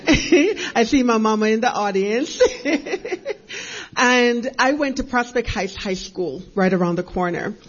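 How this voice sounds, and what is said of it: Jamaican accent. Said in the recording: “by way of Jamaica, if you hear an accent”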